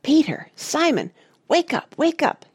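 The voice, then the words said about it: Hissed whisper. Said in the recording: “hissed Penelope in a whisper”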